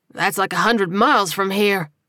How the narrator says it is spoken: Glenn exclaimed

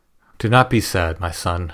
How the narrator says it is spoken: Hilarion said

